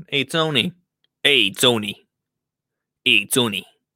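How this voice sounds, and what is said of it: Mafia gangster voice. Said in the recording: “This is my Mafia impression.”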